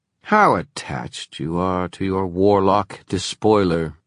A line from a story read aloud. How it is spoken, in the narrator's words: sneered the Inquisitor